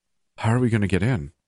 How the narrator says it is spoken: I asked breathlessly

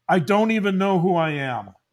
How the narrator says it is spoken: He yelled a little bit and he said

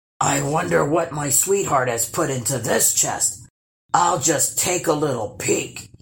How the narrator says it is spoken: rumbled

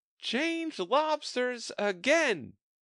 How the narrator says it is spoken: yelled the Griffin at the top of its voice

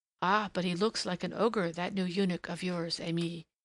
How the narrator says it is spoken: murmured one of the little Turks

